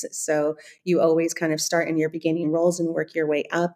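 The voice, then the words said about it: American accent, Californian. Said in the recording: “they can probably tell from my accent, I'm not from Germany. I'm actually from the States, from California.”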